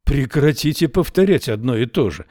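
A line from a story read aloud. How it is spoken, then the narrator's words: Exclaiming. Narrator (Russian): воскликнул Эрвин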